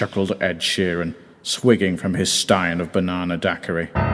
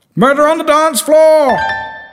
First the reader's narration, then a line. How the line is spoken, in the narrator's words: shouted someone at the back